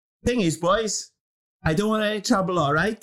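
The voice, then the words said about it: Put-on Welsh accent. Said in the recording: “What's it going Welsh? ... I just thought I'd do it in a Welsh accent.”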